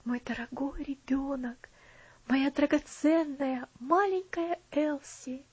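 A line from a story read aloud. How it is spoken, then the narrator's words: Whispered. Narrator (Russian): прошептал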